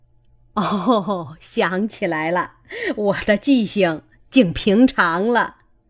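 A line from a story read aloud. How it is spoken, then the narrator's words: Laughing. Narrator (Chinese): 贾母……笑道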